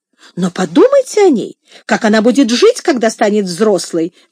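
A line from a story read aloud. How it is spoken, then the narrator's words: Exclaiming. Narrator (Russian): воскликнула Мария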